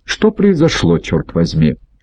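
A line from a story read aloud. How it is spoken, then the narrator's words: Plain. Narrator (Russian): говорит Массина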